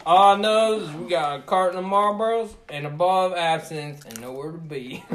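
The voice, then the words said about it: Put-on redneck accent. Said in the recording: “redneck”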